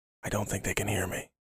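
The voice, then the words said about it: Whispering. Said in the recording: “I'm whispering.”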